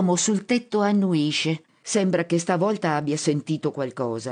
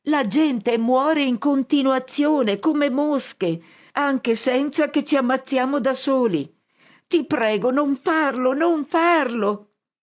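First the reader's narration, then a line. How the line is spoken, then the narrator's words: Shouting at top of lungs. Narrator (Italian): grido a squarciagola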